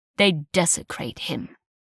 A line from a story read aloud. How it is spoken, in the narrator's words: spat in his grumbling voice